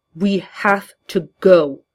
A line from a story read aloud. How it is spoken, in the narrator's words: he snarled